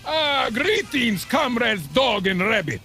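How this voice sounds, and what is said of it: Put-on Eastern European accent. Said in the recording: “I'm having trouble placing the accent this month. Mid-Atlantic states? The San Fernando Valley? ... I get more of a vague Baltic vibe. Something in a light Czech pattern.”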